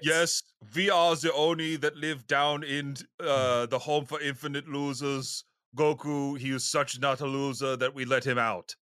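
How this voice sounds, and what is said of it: Put-on German accent. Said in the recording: “the German accent for us demons”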